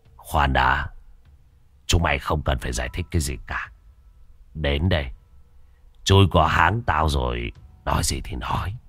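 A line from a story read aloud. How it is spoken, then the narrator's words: Cold. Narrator (Vietnamese): Đại ca Chọc giọng lạnh lùng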